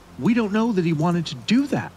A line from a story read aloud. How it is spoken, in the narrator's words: I screamed as loudly as I could